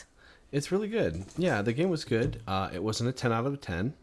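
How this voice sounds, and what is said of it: Quiet, subdued low-volume speech. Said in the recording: “My voice is not going up any higher. I'm sorry. Plus, I'm talking quietly because our son is sleeping”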